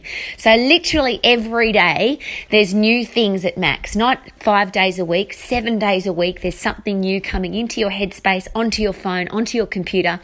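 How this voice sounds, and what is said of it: Excited, enthusiastic speaking voice. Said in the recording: “as you can hear in my voice, I get really excited about learning.”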